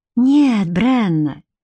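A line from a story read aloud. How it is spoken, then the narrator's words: Soft reply. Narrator (Russian): мягко ответил он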